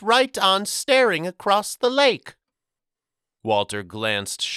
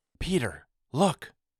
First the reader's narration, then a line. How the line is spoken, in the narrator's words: Walter whispered